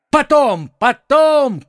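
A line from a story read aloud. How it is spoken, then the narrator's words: Shouted. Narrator (Russian): крикнул ему Д'Артаньян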